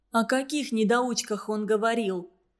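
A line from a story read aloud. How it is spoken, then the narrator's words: Sad wry smirk. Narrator (Russian): Веники грустно усмехнулась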